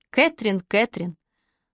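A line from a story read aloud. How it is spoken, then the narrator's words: Tender speech. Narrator (Russian): ласково проговорил Пол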